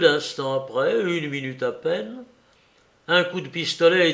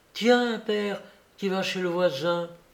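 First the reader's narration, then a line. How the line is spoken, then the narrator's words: Exclaiming. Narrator (French): Suzanne s'écriait encore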